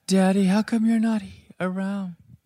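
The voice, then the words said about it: Childlike baby voice. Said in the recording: “baby voice?”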